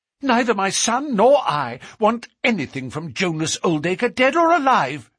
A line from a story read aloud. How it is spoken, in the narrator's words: she cried, with a proper spirit